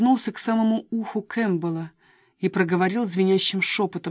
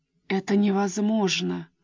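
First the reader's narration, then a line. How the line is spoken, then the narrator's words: Groan. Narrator (Russian): простонал он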